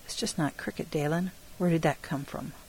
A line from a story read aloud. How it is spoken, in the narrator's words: Shelby laughed gently